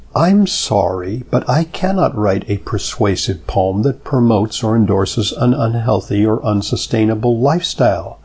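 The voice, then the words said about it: Imitation of HAL computer voice. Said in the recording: “in my best Hal voice”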